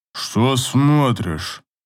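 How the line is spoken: Grumbling. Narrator (Russian): Проворчал Амир

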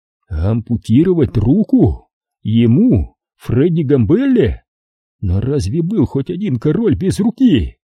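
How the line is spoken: Loud laughter. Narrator (Russian): Фредди расхохотался

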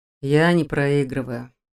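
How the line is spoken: Sighing. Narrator (Russian): вздохнул

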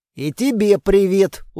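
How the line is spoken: Weary reply. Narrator (Russian): устало отозвался я

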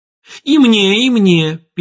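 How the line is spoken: Squeaking. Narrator (Russian): пискнул Ромка

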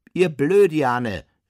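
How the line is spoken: Man calling after. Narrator (German): rief ihm der Mann in der Reithose nach

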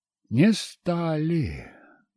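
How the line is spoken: Sigh. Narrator (Russian): вздохнул я

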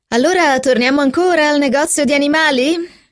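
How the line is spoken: Laughing. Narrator (Italian): rise Philip

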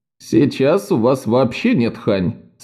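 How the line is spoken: Odd giggle. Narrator (Russian): странно хихикнув, сказал Максим

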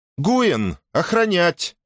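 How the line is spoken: Hurried shout. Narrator (Russian): успела крикнуть принцесса

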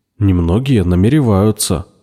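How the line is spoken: Wry snort. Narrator (Russian): хмыкнул Виктор

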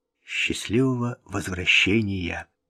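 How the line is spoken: Smiling whisper. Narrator (Russian): Вик, улыбаясь, прошептал

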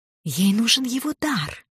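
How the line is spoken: Casual whisper, foreign tongue. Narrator (Russian): небрежным шепотом сообщила Лима, сообщила на артанском

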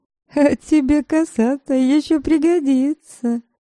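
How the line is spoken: Giggling. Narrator (Russian): хихикнула Дубравка

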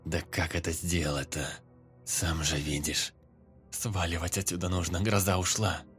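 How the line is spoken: Grumbling. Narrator (Russian): Снова проворчал лейтенант

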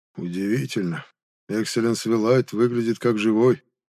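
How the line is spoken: Muffled, hollow voice. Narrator (Russian): глухо произнес

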